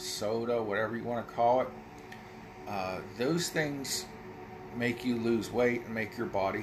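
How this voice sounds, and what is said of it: Usual voice. Nothing is said of it.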